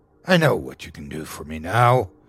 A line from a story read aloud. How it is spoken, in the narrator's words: said in a dark, condescending tone